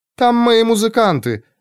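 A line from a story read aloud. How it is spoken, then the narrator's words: Joyful. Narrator (Russian): радостно ответила госпожа Лукия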